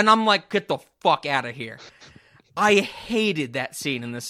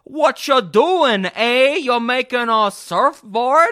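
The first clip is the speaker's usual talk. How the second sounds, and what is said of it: Minnesotan accent. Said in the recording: “she has a Minnesotan accent”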